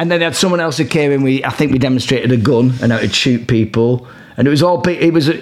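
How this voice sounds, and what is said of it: Usual voice. Nothing is said of it.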